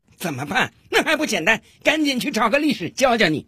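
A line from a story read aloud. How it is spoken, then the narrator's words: Loud scolding. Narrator (Chinese): 法官提高了嗓门，大声的训斥道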